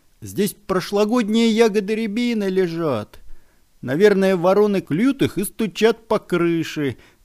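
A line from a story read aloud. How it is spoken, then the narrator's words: Children shouting together. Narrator (Russian): закричали ребята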